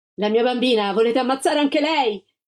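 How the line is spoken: Shouted. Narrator (Italian): la Gilda gridò

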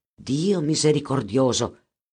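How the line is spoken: Exclaimed. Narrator (Italian): esclamò Edgardo

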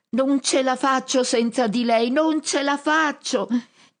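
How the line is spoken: Shrieking from above. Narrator (Italian): strilla dall'alto

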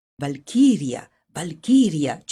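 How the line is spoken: Repeated in low chatter. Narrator (Italian): citavano, chiacchierando a bassa voce

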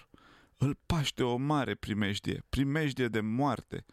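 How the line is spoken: Faint, moaning girl. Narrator (Romanian): a gemut fata, gata să leșine

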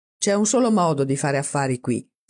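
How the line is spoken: Firm, decisive pronouncement. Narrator (Italian): sentenziò con voce decisa

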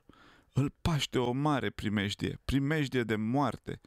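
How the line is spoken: Girl groaning, near fainting. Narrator (Romanian): a gemut fata, gata să leșine

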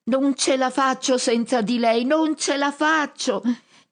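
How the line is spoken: Shrieking from above. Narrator (Italian): E lui strilla dall'alto

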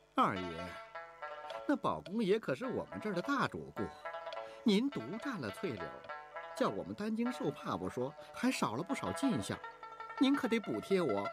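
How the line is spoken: Sullen, displeased. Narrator (Chinese): 撂下脸

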